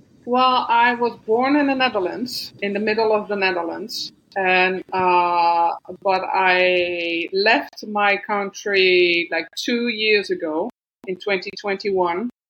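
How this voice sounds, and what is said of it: Non-native English, Dutch accent. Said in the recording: “you've got a non-English accent”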